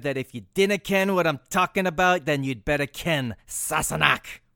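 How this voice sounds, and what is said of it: Put-on Scottish accent. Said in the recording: “how is my Scottish accent?”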